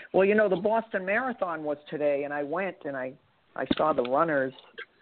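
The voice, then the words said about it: Boston East Coast accent. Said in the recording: “Have East Coast accents. ... my Boston accent. ... as soon as I heard your voice, I thought Boston.”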